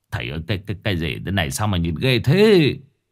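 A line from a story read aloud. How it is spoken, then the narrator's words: Stammering. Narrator (Vietnamese): Ông Đại lắp bắp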